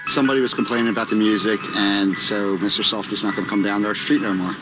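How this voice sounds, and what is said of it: Philadelphia / New Jersey accent. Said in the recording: “this is a Jersey / Philly. It's more prominent Philly accent, which will remind you of Mayor of Easttown ... which is a derivative of Pittsburghese”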